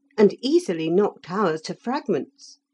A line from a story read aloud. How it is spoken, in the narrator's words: said Felix eagerly